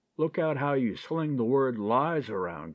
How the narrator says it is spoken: growled Duck

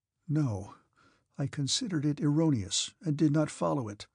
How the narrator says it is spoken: said Pierre, so softly that the Rhetor did not hear him

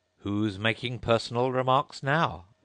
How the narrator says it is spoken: the Hatter asked triumphantly

